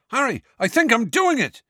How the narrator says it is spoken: yelled Seamus

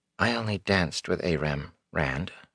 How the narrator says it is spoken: she said softly

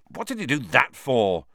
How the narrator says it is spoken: said Harry furiously

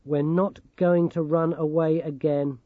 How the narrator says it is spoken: she said flatly

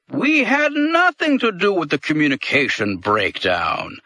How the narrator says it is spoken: Dol Heep said in the same hearty tone

